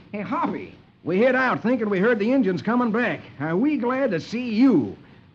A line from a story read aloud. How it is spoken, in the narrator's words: Lucky exclaims